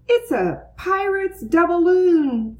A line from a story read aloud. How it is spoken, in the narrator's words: Francine shouted